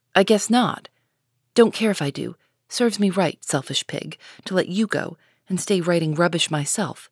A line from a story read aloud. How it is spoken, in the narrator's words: muttered Jo